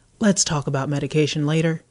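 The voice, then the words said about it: Southern drawl. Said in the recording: “again in a southern drawl.”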